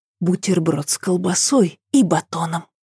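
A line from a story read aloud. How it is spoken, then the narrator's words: Conspiratorial whisper. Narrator (Russian): шепнула она заговорщически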